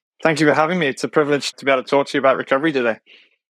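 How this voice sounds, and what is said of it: British accent. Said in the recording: “your accent, which every time we talk sounds so cool. I'm a total lover of all things United Kingdom”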